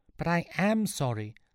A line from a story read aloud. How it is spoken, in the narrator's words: Sean squeaked out